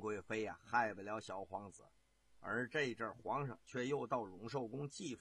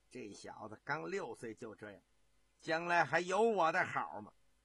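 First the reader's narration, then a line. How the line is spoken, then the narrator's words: Shocked, bitter anger. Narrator (Chinese): 万贵妃呀、又惊又怒，恨恨地说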